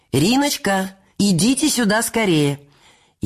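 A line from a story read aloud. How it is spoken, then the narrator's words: Shouting. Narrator (Russian): Корнея Ивановича, который закричал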